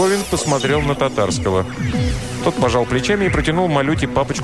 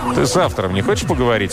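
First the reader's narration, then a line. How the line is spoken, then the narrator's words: Plain. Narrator (Russian): спросил Марковин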